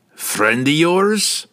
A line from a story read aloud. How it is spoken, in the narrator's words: Brunner taunted